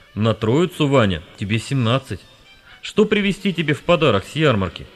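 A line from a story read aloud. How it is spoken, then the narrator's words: Father's tender, affectionate voice. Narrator (Russian): отец, нагнувшись к сыну, ласково сказал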